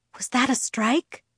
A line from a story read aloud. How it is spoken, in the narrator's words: I whispered to Esme